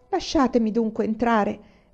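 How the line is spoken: Pleading. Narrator (Italian): supplicò

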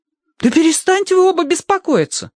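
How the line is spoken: Exclaimed. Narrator (Russian): воскликнул Киврин

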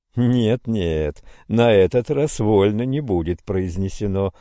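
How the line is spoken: Laughing. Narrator (Russian): смеясь сказал Всеволод

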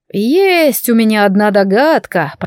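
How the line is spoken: Drawn-out drawl. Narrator (Russian): протянул он

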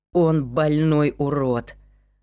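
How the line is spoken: Forced out with disgust. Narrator (Russian): С отвращением выдавил Люк

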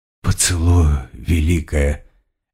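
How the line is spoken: Barely audible. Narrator (Russian): еле слышно произнесла Листи

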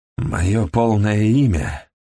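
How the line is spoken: Hoarse. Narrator (Russian): хрипло проговорил

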